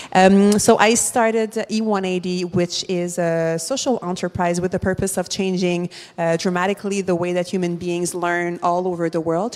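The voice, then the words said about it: Montreal French-Canadian accent. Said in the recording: “social entrepreneur from Montreal, as you can hear from my accent”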